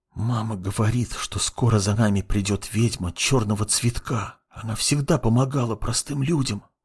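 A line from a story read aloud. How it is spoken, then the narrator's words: Whispering while chewing. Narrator (Russian): начал шептать он, продолжая жевать хлеб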